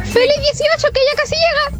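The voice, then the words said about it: High-pitched Elmo puppet voice. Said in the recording (Spanish): “con la voz de Elmo”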